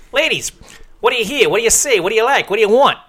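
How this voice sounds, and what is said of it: Strong Chicago accent. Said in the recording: “he had this full-on Chicago accent”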